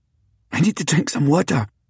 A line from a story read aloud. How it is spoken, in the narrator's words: I gasped